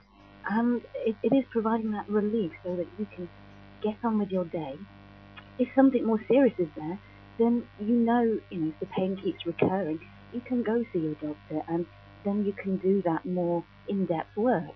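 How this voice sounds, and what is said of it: Calm, soothing, slightly hypnotic voice. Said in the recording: “her voice is brilliant ... your voice is perfect for this ... Perfect radio voice ... Your voice is very calming ... slightly hypnotic ... the calm voice”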